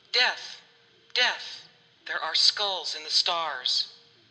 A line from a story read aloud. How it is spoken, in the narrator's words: Cain sighed